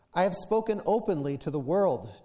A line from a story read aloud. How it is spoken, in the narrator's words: Jesus replied